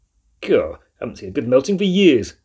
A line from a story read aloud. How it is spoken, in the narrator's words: said the mouse happily